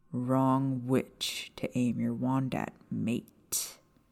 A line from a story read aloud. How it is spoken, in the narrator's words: James said, his voice low and dangerous